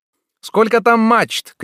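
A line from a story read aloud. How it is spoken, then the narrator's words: Shouted. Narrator (Russian): крикнул Тропинин вперед смотрящему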